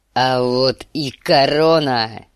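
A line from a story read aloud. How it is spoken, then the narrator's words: Roared. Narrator (Russian): взревел он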